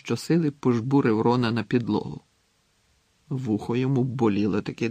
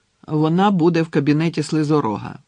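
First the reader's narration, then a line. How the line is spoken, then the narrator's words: Confident voice. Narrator (Ukrainian): впевненим голосом сказав Гаррі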